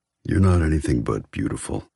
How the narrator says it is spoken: He murmurs

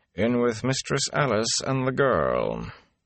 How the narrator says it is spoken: Tom said dryly

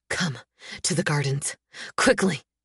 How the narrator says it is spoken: When the worst of the shock passes, he whispers

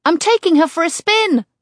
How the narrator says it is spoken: Kate yells

